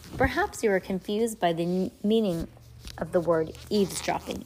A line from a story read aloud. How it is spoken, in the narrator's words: Aunt Josephine said